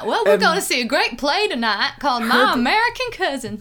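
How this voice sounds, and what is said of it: Put-on slight Southern US accent. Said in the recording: “She's got a little southern accent.”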